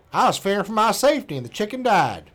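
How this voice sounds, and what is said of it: Mock accent of a Florida man. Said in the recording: “So I'll read it in his accent.”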